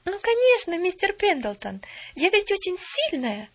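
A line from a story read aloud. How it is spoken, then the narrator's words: Exclamation. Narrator (Russian): воскликнула Поллиана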